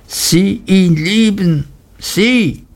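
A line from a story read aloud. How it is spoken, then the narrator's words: Crying out. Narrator (German): rief sie und ballte die Faust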